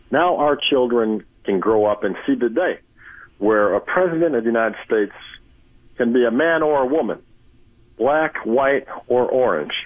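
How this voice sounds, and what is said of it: Barack Obama impression. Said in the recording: “Barack Obama impersonator Reggie Brown”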